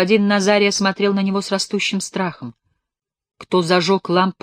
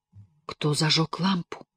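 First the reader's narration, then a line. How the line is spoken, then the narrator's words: Whispered question. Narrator (Russian): шепотом спросил он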